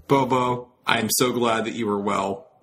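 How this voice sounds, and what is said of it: Hoarse voice. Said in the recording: “as you can all tell with my hoarse voice”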